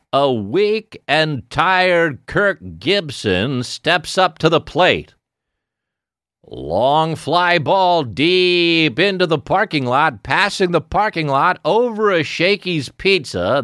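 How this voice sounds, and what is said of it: Baseball play-by-play announcer voice. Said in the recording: “that baseball fucking impression ... We're both announcers to the Dodgers.”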